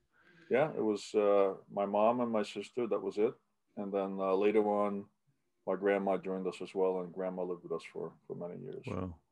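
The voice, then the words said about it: Distinct New York accent. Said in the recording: “with my accent, I still don't speak in English ... it's a very distinct English. It's we can tell geographically. I lived in New York for a number of years ... it's a New York slang”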